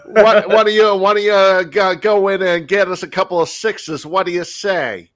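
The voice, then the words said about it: Cartoonish 1920s gangster voice. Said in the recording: “sounded like a 1920s gangster in your impersonation ... like a cartoon or something”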